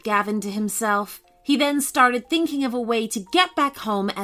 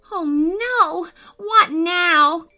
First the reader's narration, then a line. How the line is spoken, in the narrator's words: cried Gavin